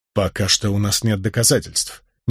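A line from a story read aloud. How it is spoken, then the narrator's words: Said quietly. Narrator (Russian): негромко произнес я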